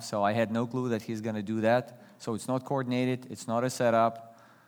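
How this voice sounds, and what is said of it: Non-native English accent. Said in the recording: “you hear accent or you catch me butchering English grammar ... because I'm not born in this country”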